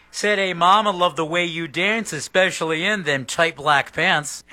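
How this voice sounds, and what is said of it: Spoken rock-singer impression. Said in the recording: “my little Robert Plant impression ... No singing ability, just tweaking the lyrics to a Led Zeppelin song”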